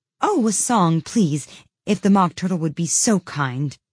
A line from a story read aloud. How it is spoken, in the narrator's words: Alice replied so eagerly